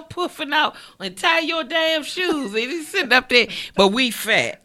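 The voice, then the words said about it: Washington D.C. accent. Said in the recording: “she either from D.C. or Baltimore ... you can hear DC. It in yeah. the accent.”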